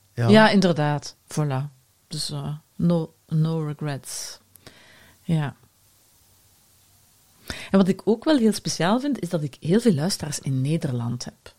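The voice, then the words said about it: Flemish accent. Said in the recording (Dutch): “met mijn Vlaams accent”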